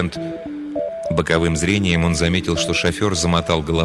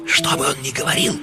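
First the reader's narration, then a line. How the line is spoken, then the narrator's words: Fervent whisper in ear. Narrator (Russian): жарко прошептал тот ему в ухо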